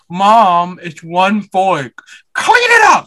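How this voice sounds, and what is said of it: Imitated white boy voice. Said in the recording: “in his white boy voice”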